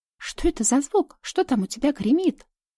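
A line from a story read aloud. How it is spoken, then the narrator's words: Excited rapid chatter. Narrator (Russian): Взволнованно затараторила Ксюша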